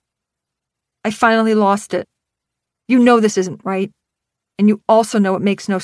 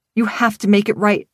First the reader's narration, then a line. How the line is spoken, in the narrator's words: I pleaded